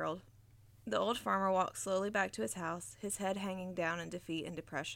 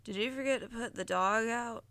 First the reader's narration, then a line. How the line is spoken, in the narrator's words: asked Harold sleepily